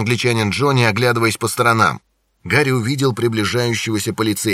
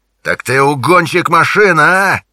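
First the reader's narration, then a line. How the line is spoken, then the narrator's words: Yelling. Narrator (Russian): орал он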